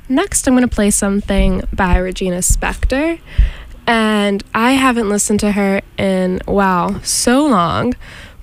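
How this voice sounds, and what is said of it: Hoarse, fading voice. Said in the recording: “I'm losing my voice here this morning”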